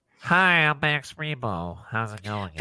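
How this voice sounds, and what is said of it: Nasal, nose-plugged character voice. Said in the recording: “your best Max Rebo impression ... he'd sound probably like he's got his nose plugged”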